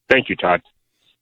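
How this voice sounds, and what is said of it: Imitates another person's voice. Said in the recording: “my best Dan Patrick impersonation ... That was pretty good. ... Nailed it.”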